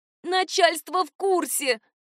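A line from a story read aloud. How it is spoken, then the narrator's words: Moaning. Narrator (Russian): простонала подруга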